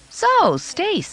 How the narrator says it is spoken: I said brightly

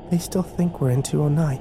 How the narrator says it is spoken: Kimber whispered, as if they could hear her

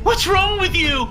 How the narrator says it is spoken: he screamed

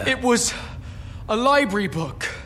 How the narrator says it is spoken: invented wildly

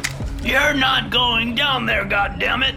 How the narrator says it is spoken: he shouted

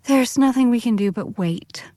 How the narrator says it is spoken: said Bess with a sigh

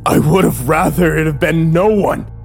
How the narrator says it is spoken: I screamed at him

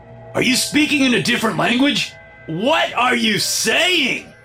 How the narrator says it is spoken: Doris whispered in his ear

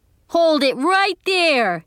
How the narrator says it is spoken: He hollered again

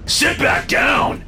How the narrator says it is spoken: David shouted

